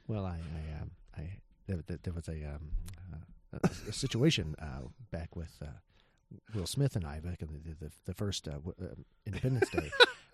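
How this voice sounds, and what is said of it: Deep-voiced imitation of another person. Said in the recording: “best Jeff Goldblum impression ... Why does your Jeff Goldblum impression sound like a deep voiced Milton from Office Space?”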